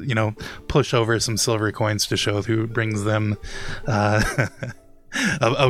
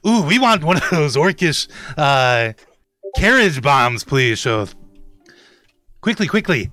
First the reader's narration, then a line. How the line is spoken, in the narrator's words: they yell over